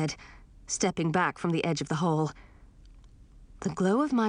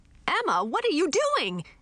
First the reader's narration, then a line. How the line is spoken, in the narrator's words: shouted as I plunged toward the floor